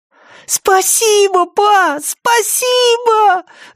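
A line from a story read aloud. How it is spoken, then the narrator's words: Excited yell. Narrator (Russian): завопил Бретт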